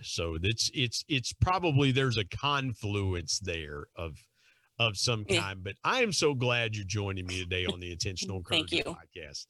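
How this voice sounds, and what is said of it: Thick West Virginia accent. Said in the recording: “wonderfully thick accent ... the West Virginia accent ... his accent's even thicker than yours”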